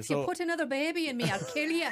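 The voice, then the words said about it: Put-on Irish accent. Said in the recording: “Up your game on the Irish accent.”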